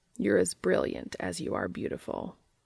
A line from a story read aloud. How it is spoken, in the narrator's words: murmured Cas